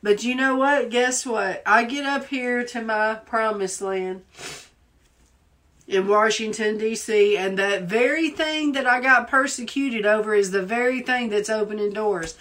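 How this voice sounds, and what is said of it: Southern American accent. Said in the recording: “my accent. Because I speak so Southern.”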